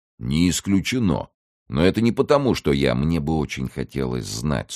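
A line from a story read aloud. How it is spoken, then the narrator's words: Dry interruption. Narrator (Russian): сухо перебил его Фалько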